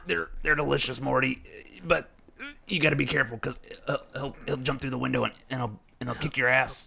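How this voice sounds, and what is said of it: Imitates Rick cartoon character voice. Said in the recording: “I heard Rick. That sounded just like him. ... It's pretty good. ... That was a pretty good impression.”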